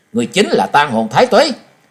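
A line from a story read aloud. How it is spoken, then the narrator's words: Shouting. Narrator (Vietnamese): Trần Lâm hét lên một tiếng nói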